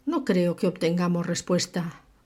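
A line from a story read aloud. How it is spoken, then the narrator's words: Murmured. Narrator (Spanish): murmuró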